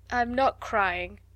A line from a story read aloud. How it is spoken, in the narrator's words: answered Ermengarde in a muffled, unsteady voice